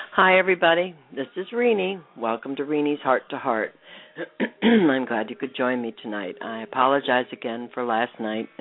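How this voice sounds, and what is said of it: Slightly unwell-sounding voice. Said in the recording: “As you can still hear in my voice, I'm not 100%, but I'm a lot better.”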